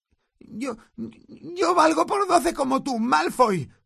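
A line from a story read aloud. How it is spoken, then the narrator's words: Stammer. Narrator (Spanish): tartamudeó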